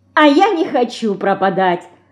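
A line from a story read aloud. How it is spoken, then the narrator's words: Laughing. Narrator (Russian): Засмеялась Динка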